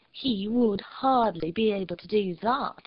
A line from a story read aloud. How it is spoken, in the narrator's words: she said in a clear, sweet, mocking voice